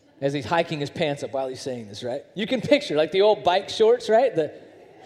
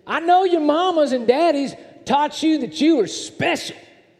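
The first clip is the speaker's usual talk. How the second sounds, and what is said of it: Thick southern accent impression. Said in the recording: “he had a very, very thick southern accent, okay? So I'm going to do my best to impersonate.”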